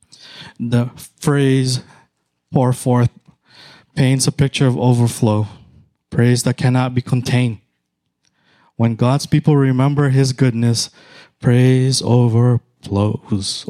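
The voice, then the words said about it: Filipino accent. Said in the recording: “Overflows is my Filipino accent.”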